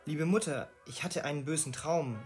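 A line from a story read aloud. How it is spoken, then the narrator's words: Hasty speech. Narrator (German): sagte hastig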